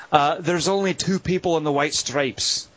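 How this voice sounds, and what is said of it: Put-on Irish accent. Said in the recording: “I'm going to try this with the accent ... Irish than I meant it to”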